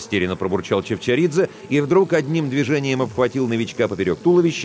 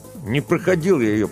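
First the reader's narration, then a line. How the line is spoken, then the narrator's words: Through gritted teeth. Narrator (Russian): процедил он сквозь зубы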